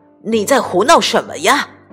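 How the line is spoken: Loud startled shout. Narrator (Chinese): 被花盆绊了一跤，他大声喊道

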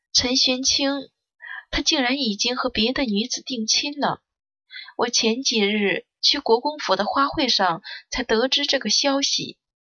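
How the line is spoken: Sighing, soft-spoken. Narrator (Chinese): 他叹了口气，轻声说

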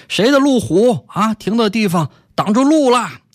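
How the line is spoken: Man shouting. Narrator (Chinese): 一个男的冲进来大喊

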